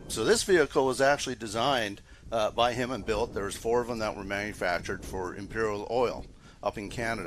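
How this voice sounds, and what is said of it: Canadian accent. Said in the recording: “are you from Canada? ... I could tell by that accent.”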